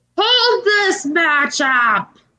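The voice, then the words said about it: Poor imitation of another person's voice. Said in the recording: “That's my Vince impression. It's terrible, isn't it?”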